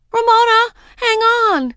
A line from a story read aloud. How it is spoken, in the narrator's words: Daisy called out